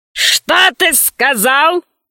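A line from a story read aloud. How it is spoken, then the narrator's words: Growling. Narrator (Russian): зарычала она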